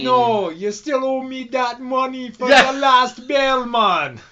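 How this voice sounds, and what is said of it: Imitated Jamaican accent. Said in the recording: “the Jamaican bad guys in the movies are like cool as fuck. They're like real nice about it”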